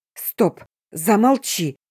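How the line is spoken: Hoarse rasp in pain. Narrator (Russian): захрипела я, согнувшись от боли

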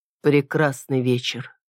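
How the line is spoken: Sighing. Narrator (Russian): вздохнул я

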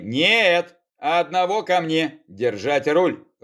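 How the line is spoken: Growl. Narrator (Russian): рыкнул я

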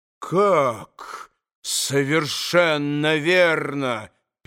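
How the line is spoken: Restrained menacing question. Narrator (Russian): переспросил Иван Федорович, с усилием сдерживая себя

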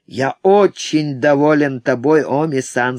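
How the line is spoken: Plain. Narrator (Russian): сказал он

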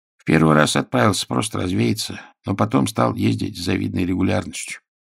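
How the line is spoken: Grumbling. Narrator (Russian): проворчал Николай Гаврилович

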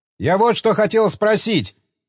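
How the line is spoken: Shouting over rushing water. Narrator (Russian): крикнул Крейн, стараясь перекричать шум воды

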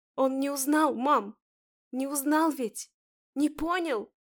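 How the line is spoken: Sobbing. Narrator (Russian): Всхлипываю

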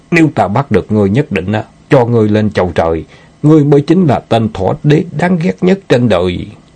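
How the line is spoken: Furious shout. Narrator (Vietnamese): Vương Cửu Sơn lửa giận ngút trời hét

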